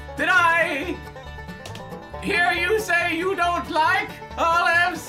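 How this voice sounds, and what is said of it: Screaming loudly. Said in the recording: “Why are you screaming?”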